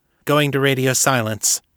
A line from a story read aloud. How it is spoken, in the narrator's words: Kate said